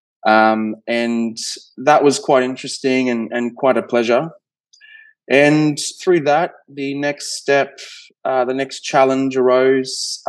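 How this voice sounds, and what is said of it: Australian accent. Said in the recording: “being Australian, I'm sure you can hear the accent”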